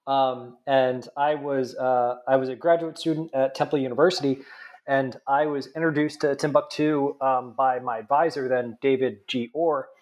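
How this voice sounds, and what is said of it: Nasal New Jersey accent. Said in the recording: “I'm originally from New Jersey, if you can't tell by my nasally accent.”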